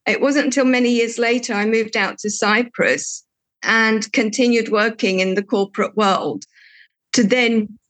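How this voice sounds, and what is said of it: English accent. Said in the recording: “that's where I've got my English accent from”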